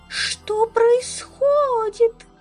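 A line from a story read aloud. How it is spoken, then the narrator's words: Wailing. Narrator (Russian): взвыла она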